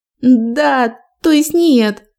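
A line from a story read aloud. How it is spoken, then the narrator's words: Tearful plaintive speech. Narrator (Russian): проговорила она и снова жалобно всхлипнула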